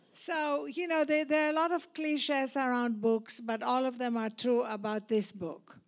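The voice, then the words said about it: Speaks with a noticeable accent. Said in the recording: “because of my accent ... the way I pronounce them”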